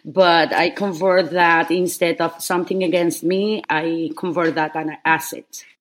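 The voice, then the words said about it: Heavy foreign accent. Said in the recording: “my heavy accent ... they get distracted by my accent”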